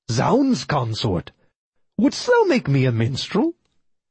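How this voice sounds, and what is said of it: Affected Elizabethan accent. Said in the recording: “tried to affect an Elizabethan accent.”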